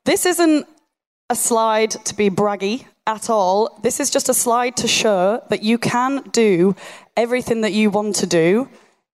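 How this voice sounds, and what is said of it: Monotone Yorkshire accent. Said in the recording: “my Yorkshire monotone accent”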